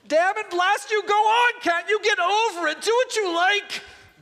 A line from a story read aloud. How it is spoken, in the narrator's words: bellowed the ghost, but ended whimpering